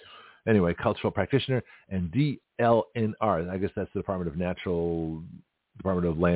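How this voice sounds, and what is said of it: Usual voice. Nothing is said of it.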